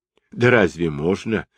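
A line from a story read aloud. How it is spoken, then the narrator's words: Laughing. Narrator (Russian): засмеялся Шасен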